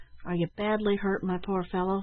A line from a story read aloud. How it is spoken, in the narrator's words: said Ned, anxiously